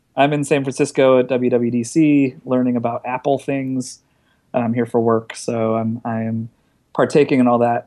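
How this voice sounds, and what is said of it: Tired, exhausted-sounding voice. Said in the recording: “I'm exhausted if you can't hear it in my voice”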